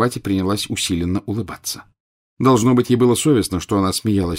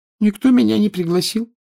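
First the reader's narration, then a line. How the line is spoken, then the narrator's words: Sad reply. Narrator (Russian): печально ответила Парватти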